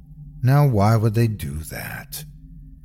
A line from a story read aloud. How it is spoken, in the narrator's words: Her tone is as calm as ever